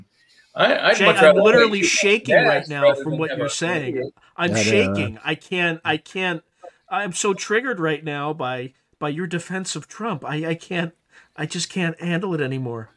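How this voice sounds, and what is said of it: Sarcastic mock-outraged delivery. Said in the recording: “I'm obviously being sarcastic.”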